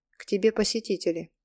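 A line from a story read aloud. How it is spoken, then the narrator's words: Dry. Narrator (Russian): сказала сухо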